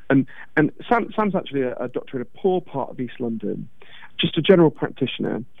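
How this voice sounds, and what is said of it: Posh English accent. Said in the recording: “as you can tell from my weird Downton Abbey accent.”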